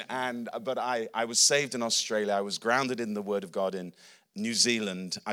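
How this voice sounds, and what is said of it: English accent, slightly mixed. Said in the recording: “because I'm an Englishman. My accent's a bit wonky, but I'm an Englishman.”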